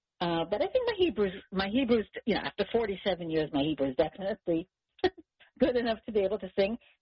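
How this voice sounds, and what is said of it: Noticeable foreign accent in English. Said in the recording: “we can still hear your accent in English”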